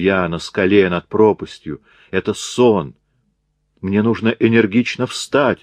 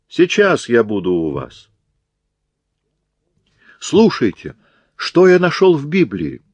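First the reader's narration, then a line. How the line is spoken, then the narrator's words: Joyful exclamation. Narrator (Russian): воскликнул радостно американец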